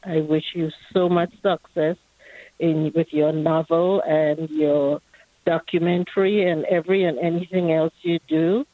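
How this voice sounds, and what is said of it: Trinidadian accent. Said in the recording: “that accent is tremendous. ... Trinidad.”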